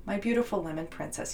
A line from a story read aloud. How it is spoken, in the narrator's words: he said